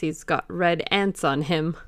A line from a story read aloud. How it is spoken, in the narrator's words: laughed one of them